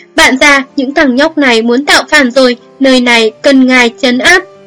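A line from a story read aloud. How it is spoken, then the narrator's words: Loud, urgent, fawning. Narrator (Vietnamese): người đàn ông đang không ngừng cười nịnh kia vội vàng lớn tiếng kêu gọi, vẻ mặt khẩn cấp nói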